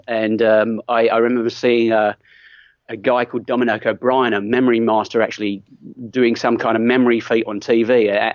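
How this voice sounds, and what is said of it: Mixed British and Australian accent. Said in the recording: “I'm originally from the UK, but I've now spent 19 years in Australia... So I have a very mixed accent.”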